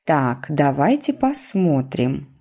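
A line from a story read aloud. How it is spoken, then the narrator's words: Plain. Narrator (Russian): сказала она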